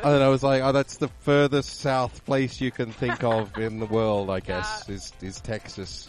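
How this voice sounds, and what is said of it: Australian accent. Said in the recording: “as an Australian, I've been accused of being South African many a time, as well as Kiwi ... I get English, British all the time, Scottish, Irish ... where my accent was from”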